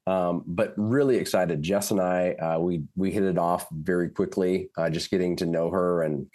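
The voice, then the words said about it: Voice sounds rough, under the weather. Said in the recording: “my voice is sounding not as beautiful as it usually does, but dealing with a little bit of a cold here”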